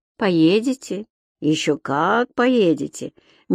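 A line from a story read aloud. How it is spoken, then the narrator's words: Slow, insistent repeating. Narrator (Russian): медленно и настойчиво повторял врач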